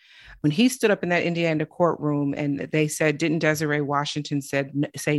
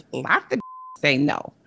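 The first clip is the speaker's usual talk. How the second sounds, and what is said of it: Mike Tyson impression. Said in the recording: “my Mike Tyson impression”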